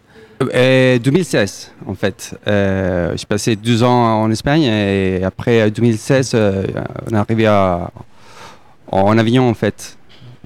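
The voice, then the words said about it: South American accent in French. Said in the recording (French): “on sent à votre accent ... vous venez d'Amérique du Sud, vous êtes originaire d'Uruguay”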